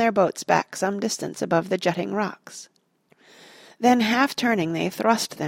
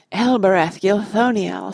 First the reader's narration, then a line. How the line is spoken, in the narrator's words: sighed Legolas